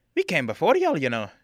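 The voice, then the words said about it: Scottish-like dwarvish character accent. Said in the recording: “my accent? You know, I'm dwarvish. We have accents. It might sound a little bit closer to your Scottish accent, but it's dwarvish.”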